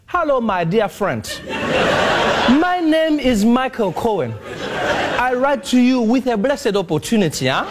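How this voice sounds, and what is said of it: Put-on African accent. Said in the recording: “in an African accent”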